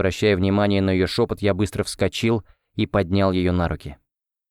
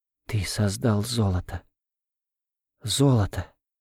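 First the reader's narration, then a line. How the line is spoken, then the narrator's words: Whisper. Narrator (Russian): опять зашептала Ольга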